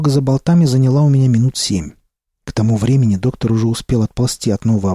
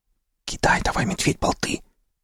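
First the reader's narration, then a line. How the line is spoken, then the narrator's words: Whisper. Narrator (Russian): прошептал доктор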